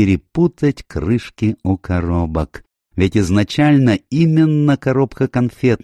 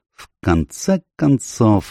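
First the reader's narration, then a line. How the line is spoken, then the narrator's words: Thoughtful. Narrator (Russian): задумчиво сказал Пуаро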